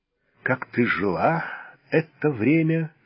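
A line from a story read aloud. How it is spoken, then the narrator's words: Hoarse. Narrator (Russian): хрипло спросил волк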